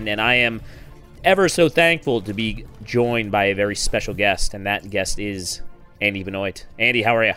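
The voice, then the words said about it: Strained, frazzled, lower voice. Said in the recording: “my voice is a little bit strained, a little bit frazzled ... Probably sounds a little bit lower too. I don't have my usual androgynous quality to my voice ... slightly sore throat”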